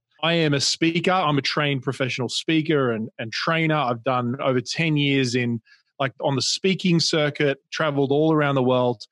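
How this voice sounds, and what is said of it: Australian accent. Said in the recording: “you can probably hear my accent is Australian”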